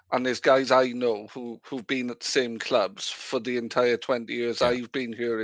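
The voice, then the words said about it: Strong Sussex accent. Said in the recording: “You've got a very strong Sussex accent”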